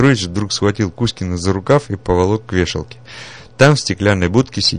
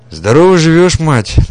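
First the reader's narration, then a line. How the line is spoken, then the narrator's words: Deliberately loud. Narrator (Russian): нарочито громко сказал Петрович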